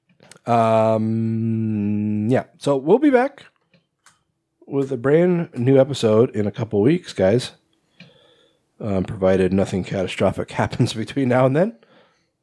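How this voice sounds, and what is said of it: Congested, strained voice. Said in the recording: “my throat is getting gunked up though, and my congestion's getting worse though ... my voice is definitely not sounding as great as it did at the beginning”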